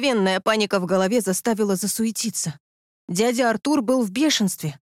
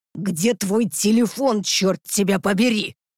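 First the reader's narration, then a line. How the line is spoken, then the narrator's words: Growl. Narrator (Russian): рыкнул он на Крис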